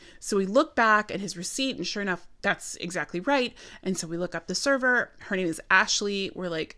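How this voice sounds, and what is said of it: Usual voice. Nothing is said of it.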